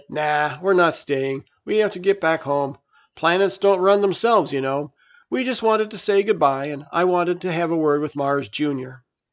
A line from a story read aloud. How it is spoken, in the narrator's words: Mars laughed and said